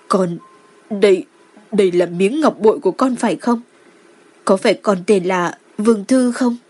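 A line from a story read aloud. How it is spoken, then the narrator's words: Trembling. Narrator (Vietnamese): Đường Lộ Di run rẩy nói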